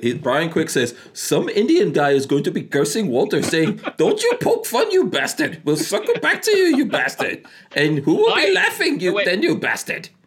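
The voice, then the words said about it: Put-on Indian accent. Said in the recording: “I'm going to do this in my Indian accent.”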